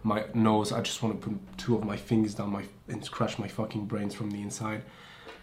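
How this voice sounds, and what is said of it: Heavy accent. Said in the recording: “I have a heavy accent”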